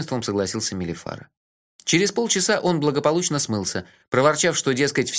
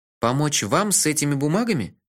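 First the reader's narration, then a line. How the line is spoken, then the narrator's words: Hesitant offer. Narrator (Russian): неуверенно предложил я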